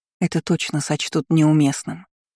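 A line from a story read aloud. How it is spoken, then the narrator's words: Whispering in ear. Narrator (Russian): прошептала ему в ухо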